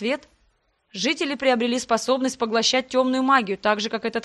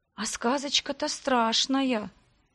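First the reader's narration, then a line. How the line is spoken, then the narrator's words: Quiet voice. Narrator (Russian): тихонько произнесла я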